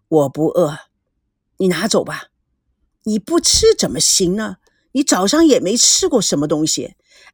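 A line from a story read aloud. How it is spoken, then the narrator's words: Cold. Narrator (Chinese): 赵念祖……冷冷的说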